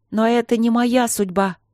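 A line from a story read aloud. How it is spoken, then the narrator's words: Shout. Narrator (Russian): крикнула Аня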